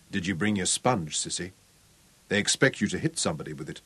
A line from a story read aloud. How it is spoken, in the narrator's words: murmured